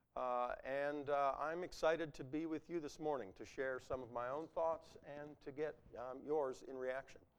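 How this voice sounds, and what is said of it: Rough, slightly hoarse voice. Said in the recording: “My voice is a bit rough, and I may have to cough a bit. I'm fighting a little bit of a throat cold.”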